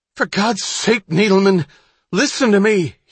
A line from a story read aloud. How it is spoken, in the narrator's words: he cried